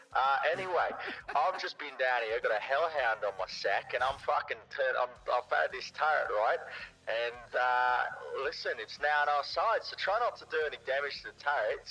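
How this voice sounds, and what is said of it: Put-on Australian twang. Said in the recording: “I've put on a little bit of an Australian twang to my voice”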